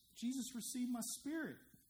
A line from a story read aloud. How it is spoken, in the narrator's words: he cried out with a loud voice